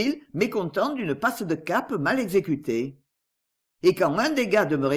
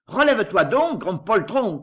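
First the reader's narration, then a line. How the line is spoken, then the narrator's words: Shouting. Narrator (French): criait-il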